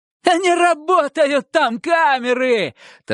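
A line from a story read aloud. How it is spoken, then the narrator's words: Triumphant shout. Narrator (Russian): торжествуя крикнул Романов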